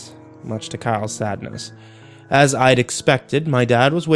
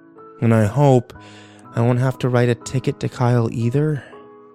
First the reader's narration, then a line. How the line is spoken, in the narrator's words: I sighed